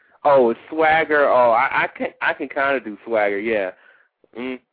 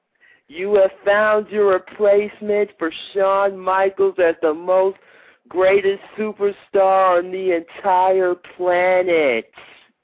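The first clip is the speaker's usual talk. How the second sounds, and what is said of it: Imitates another person's voice. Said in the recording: “here's my Swagger impression ... That's not bad.”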